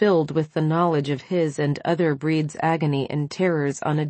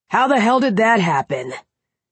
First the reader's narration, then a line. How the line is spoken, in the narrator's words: He snapped back with brutal fury